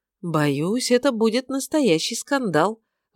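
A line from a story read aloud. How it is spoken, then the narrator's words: Sigh. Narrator (Russian): вздохнула миссис Раш Марвел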